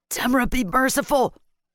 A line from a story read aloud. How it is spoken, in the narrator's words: Torek said, his voice full of horror